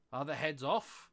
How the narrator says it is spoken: shouted the Queen

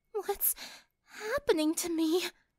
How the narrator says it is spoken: Sunset sighed

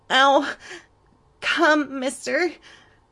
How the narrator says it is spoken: Cindy pleaded

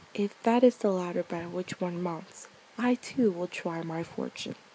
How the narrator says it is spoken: he said

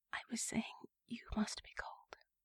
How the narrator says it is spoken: she whispered

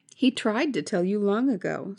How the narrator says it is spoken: said the man

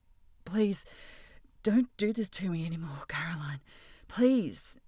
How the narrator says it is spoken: he begged, his voice shallow and desperate

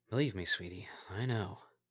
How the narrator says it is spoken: murmured

